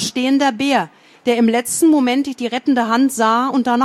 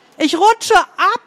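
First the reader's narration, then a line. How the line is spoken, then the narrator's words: Desperate scream. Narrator (German): schrie verzweifelt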